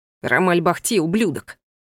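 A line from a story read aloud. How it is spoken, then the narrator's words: Snorting. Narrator (Russian): фыркнул Ива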